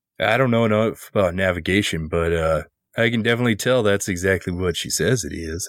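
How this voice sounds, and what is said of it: Odd Minnesota-sounding accent. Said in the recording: “I don't know what's going on with my accent. ... He's from Minnesota.”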